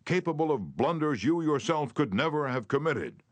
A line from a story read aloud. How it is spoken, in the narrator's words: he shouted